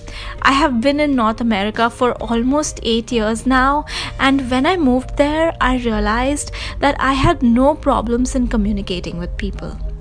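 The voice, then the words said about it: Indian English accent. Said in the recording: “the minute I would open my mouth and say a sentence, they would know that I am an Indian”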